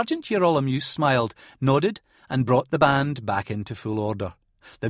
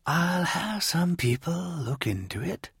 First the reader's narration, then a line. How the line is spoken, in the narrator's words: whispered